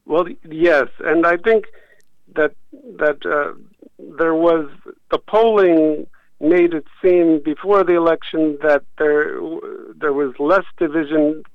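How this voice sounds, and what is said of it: American accent. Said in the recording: “you were born in America. We can hear your accent.”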